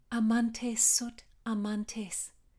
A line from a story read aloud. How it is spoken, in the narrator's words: she said